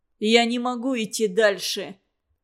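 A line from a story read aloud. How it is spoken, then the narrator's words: Groaning. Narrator (Russian): простонал он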